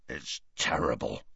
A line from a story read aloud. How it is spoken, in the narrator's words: growled Hagrid into his beard